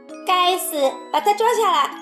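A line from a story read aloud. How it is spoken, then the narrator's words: Shout. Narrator (Chinese): 对卫士长大喊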